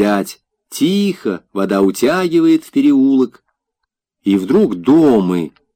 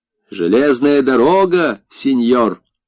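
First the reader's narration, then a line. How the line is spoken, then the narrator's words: Gondolier speaking with burr. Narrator (Russian): говорит гондольер картаве, как картавит весь город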